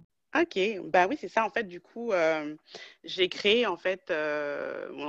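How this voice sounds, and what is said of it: French suburban Paris accent. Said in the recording (French): “je n'ai pas l'accent parisien. J'ai plutôt un accent banlieusard. ... c'est sûr que j'ai un accent français”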